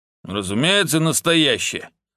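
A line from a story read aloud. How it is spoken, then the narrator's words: Gloomy confirmation. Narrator (Russian): мрачно подтвердил хороший дяденька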